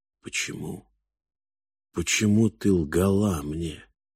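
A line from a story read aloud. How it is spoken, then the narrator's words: Hoarse question. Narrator (Russian): хрипло спросил Фальк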